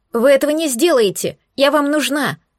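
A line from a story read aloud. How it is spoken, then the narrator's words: Shrill woman's voice, muffled. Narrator (Russian): Раздался визгливый женский голос из-за деревянного полотна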